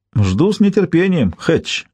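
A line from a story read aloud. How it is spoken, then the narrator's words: Snorting. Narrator (Russian): хмыкнул Демонте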